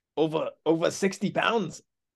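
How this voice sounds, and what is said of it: Unconvincing attempt at Russian accent. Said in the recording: “this is my Russian accent. ... That was not Russian at all”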